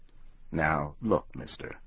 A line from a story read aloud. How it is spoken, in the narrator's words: the hunter said